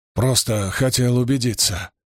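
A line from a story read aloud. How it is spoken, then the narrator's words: Muttered. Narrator (Russian): пробормотал он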